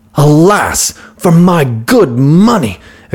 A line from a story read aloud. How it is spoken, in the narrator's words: exclaimed the merchant